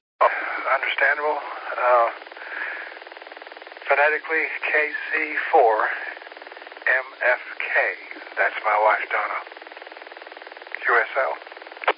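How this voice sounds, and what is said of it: Weak, hoarse voice. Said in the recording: “Your voice sounds a little weak tonight. ... A little touch of laryngitis”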